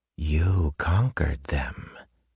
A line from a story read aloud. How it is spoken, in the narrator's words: Ruin whispered